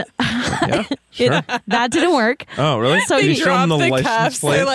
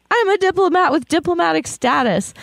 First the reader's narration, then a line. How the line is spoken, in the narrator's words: During his arrest, he screamed